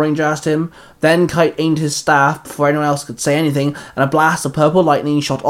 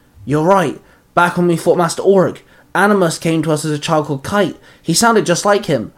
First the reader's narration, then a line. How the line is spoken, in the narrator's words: the Grey Ranger gasped